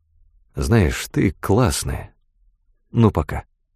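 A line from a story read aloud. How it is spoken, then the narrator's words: Whisper. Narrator (Russian): Фрэнк шепнул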